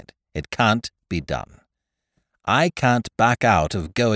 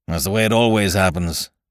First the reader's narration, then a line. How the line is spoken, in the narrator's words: sighed Ukridge